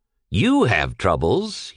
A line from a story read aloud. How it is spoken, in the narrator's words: he jeered, with emphasis on the pronoun